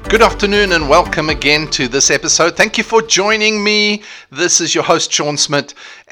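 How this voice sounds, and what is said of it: South African accent. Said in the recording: “I have an accent. Can you hear? I have an accent. The accent is South African”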